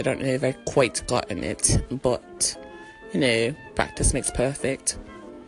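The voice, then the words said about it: Attempted English accent. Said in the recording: “I am trying to uh, practice the English accent.”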